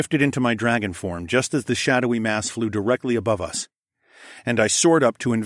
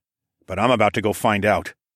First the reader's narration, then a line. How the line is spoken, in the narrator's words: muttered